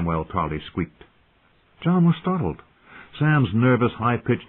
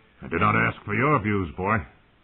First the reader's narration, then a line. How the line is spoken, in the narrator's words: Riker said coldly